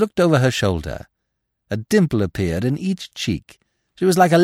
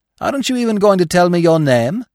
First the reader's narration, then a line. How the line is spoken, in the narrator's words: I cried